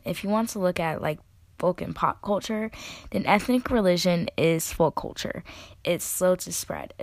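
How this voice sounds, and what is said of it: Voice sounds rough and unwell. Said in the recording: “My voice sounds kind of terrible”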